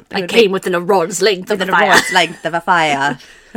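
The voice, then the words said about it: Put-on British accent. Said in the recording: “If you said it in a British accent”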